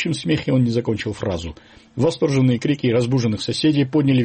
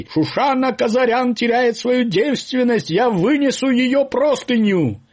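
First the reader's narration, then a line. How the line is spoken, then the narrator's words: Herald-like shout. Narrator (Russian): закричал, как средневековый глашатай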